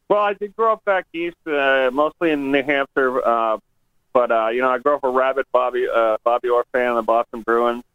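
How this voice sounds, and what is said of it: American accent. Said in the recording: “obviously you're an American. I can tell by your accent”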